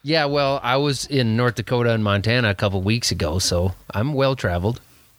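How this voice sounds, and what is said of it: Strong Minnesota accent. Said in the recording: “You think I have a thick Minnesota accent? ... Oh my gosh, it's very strong.”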